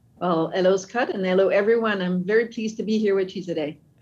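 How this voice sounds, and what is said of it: French Canadian accent, slightly American. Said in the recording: “your accent is not Native American ... I'm French Canadian ... the accent is French with a bit of an American English”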